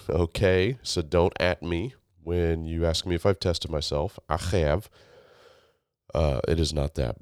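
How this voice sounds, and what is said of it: Low, husky, congested sick voice. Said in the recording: “my voice is sounding sexier and sultrier, it's because I'm sick ... mucus-filled”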